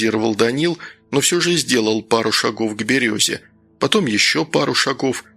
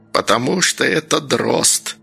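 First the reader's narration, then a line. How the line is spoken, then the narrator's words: Old woman hissing. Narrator (Russian): прошипела бабка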